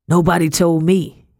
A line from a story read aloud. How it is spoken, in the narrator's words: growled